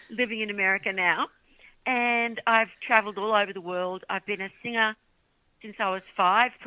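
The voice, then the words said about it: Australian accent. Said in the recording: “If you didn't work out from the accent yet, g'day. Yes, I'm from Australia.”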